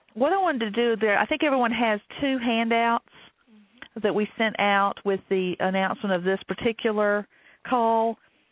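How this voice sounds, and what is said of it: Southern American accent. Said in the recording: “my Southern accent ... I don't realize how Southern I am until I hear it on a recording”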